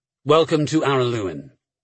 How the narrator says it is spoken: Diamond replied a little stiffly

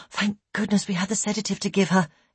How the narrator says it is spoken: Elaine said quietly to Ian

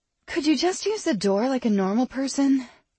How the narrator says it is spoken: the healer sighed

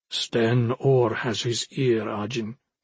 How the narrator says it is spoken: he said quietly

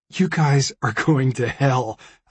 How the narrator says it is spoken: I said, laughing

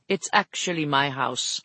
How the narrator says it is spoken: Felix told her firmly

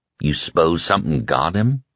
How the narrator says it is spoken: Ralph asked softly

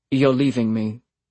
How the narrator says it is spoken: he said flatly

